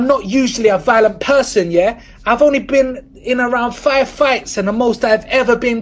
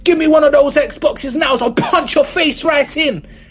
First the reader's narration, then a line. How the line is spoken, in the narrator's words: shouted at the store manager